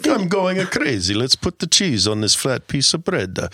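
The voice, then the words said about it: Bad put-on Italian accent. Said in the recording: “straight out of Mario Kart. That accent is so bad.”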